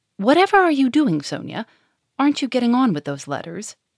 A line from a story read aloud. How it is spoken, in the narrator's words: it cried angrily